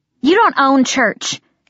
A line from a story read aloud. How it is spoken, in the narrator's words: Kit snapped